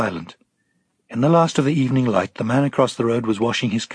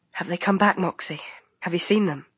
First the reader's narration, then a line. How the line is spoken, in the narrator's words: whispered